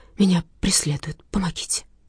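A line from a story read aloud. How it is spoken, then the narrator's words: Whispered. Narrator (Russian): прошептала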